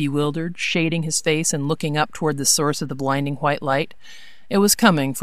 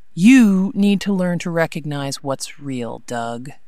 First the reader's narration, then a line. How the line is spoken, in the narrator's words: she said, her voice almost sad